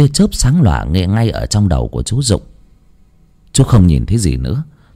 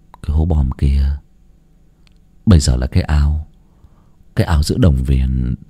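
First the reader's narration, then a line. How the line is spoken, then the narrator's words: Muttering. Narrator (Vietnamese): Chú Dụng lẩm bẩm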